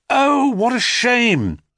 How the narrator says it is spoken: cried Phaeton

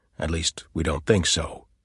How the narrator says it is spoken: he added in an undertone

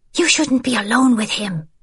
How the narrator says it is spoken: Isabel hissed

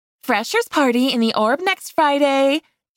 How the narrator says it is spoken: she said brightly

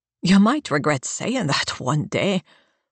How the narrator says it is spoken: Coleman laughs

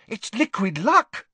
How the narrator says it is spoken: said Hermione excitedly

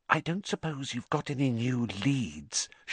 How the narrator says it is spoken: she added in a whisper so that Madame Pomfrey couldn't hear her

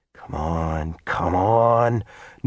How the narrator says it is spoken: Norman muttered under his breath

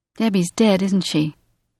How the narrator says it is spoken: Susie asked Belinda

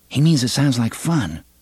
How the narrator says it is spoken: Susanna said quietly

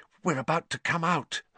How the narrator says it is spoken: Hermione breathed

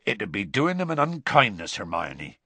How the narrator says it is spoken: he said gravely

